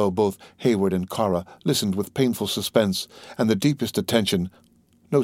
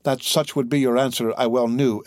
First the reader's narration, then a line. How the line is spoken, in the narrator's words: exclaimed Cora, her cheeks flushing and her dark eyes once more sparkling with the lingering emotions of a woman